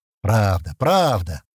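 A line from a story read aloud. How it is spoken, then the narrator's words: Contented grumble. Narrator (Russian): довольно проворчал Стэн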